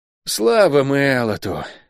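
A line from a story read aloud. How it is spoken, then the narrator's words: Breathless exhale. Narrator (Russian): выдохнул Лук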